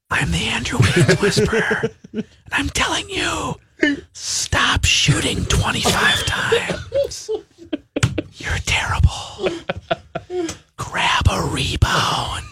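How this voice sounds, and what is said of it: Whispering. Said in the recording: “Why are you whispering?... No one can hear you.”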